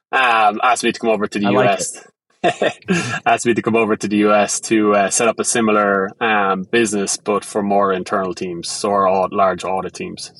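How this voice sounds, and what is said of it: Thick Irish accent. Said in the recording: “you can hear my Irish accent. It's very thick”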